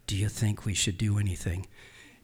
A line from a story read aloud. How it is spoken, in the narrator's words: I whisper really quietly